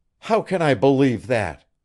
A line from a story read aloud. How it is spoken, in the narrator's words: she cried